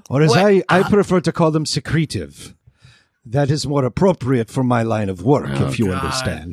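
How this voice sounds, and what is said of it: Put-on accent. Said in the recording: “the accent is simply so he can say words like secretive when he doesn't need to.”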